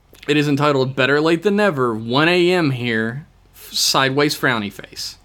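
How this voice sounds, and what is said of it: Sore, strained voice. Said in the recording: “now that my voice is nice and sore”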